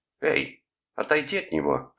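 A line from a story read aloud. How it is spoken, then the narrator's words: Barked. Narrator (Russian): рявкнула Дебора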